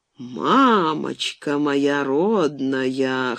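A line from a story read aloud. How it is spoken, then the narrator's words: Sleepy hoarse exclamation. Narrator (Russian): хрипловатым с просонок голосом воскликнул он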